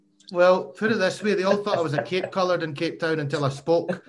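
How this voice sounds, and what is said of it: Scottish accent. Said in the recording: “that Scottish accent”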